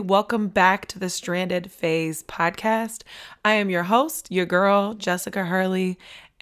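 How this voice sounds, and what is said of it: Strained, partly lost voice. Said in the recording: “it has resulted in me losing my voice once again”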